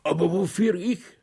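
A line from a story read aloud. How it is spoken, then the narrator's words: Groaned. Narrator (German): stöhnte Paliwetz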